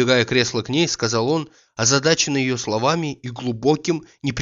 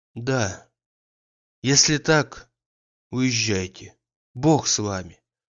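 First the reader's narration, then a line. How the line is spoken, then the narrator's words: Barely audible whisper. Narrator (Russian): Чуть слышно прошептала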